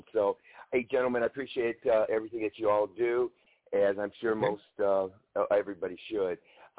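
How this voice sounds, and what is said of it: Voice with a cold. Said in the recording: “I have a little cold.”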